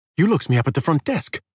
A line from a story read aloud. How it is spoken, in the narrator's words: he exclaimed